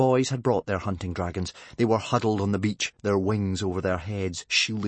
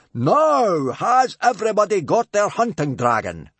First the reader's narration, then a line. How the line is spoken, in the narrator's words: bellowed Gobber